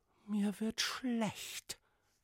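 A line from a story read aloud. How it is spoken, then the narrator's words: Whispering princess. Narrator (German): wisperte die Prinzessin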